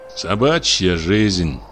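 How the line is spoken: Grumbling. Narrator (Russian): проворчал почтальон

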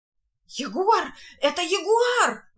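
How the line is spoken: Exclamation. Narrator (Russian): воскликнул Маркиз

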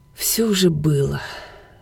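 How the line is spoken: Sighed. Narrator (Russian): вздохнул Роберт

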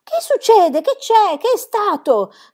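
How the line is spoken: Shouted. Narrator (Italian): gridò

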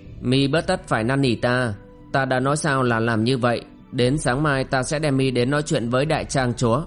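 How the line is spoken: Cold interruption. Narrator (Vietnamese): Kim Hoa phu nhân vẫn lạnh lùng ngắt lời

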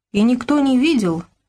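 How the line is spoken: Timid disbelief. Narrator (Russian): не поверил робко

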